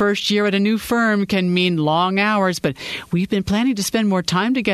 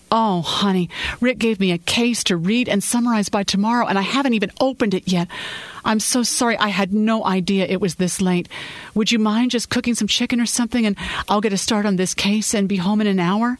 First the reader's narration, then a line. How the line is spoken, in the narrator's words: she pleaded